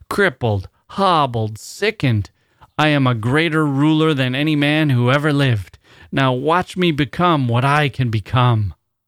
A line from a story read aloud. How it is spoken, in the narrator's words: he bellowed